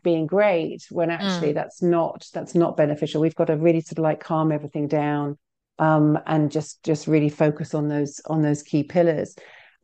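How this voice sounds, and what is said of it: British accent. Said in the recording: “you can tell by my accent that I'm not originally from New Jersey ... what's going on in this space in the UK as well”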